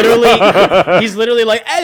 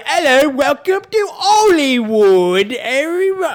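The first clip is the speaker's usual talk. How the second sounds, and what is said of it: Deliberately bad Cockney English accent. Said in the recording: “he's doing like the worst like English accent ... It's Cockney, but like Cockney as if like”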